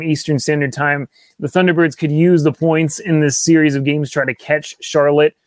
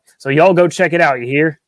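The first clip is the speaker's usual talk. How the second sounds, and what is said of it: Put-on folksy accent. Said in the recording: “just for the hat, just for the accent”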